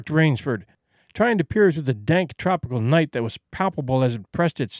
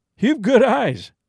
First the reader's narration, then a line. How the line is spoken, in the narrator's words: said Whitney with a laugh